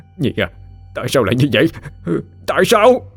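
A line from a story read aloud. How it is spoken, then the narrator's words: Anguished wailing. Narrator (Vietnamese): Phú Hoàng gào thét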